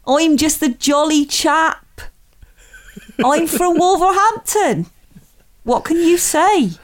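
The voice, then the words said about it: Put-on Wolverhampton accent. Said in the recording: “How is your Wolverhampton accent? ... he might talk a bit like this”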